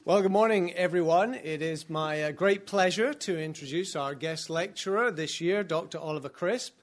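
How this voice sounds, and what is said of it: British accent. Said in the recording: “is a fellow Brit ... it must be great having a British accent ... that is true in my case”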